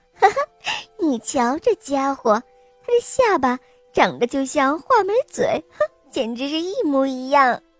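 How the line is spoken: Loud laughing voice. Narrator (Chinese): 他一边放声大笑，一边高声地说

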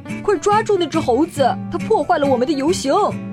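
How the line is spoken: Shouting. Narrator (Chinese): 有人喊

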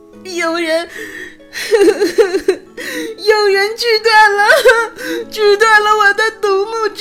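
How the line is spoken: Loud sobbing. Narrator (Chinese): 夏绿蒂再也无法忍住悲伤，大声的哭着

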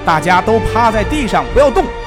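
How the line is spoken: Shouting through loudspeaker. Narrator (Chinese): 士兵阿米尔把扩音器放在嘴边，他依次用英文和希伯来文喊话

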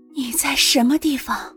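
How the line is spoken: Weak, hurried, trembling. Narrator (Chinese): 他的声音依旧很微弱，可是语调却有些急促，还有些细微的颤抖

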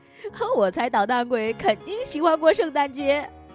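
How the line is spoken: Laughing. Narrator (Chinese): 布子笑着说

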